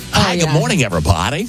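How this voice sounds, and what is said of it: Mock radio announcer voice. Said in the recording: “Talk in your radio voice ... Some shows do ... Or like news anchors.”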